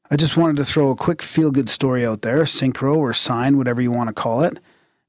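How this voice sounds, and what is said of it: Put-on Canadian hoser accent. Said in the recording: “said hoser style, my Canadian friend ... Can I do it in my hoser accent?”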